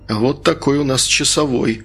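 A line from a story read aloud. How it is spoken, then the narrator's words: Amused snort. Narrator (Russian): хмыкнул Игорь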